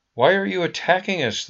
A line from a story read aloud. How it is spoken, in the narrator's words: the people of the town cried out